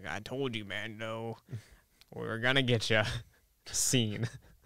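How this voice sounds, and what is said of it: Impression of a TV character's voice. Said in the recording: “great impression”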